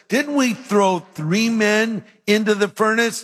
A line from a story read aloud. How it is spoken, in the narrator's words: Nebuchadnezzar in amazement exclaimed to his advisors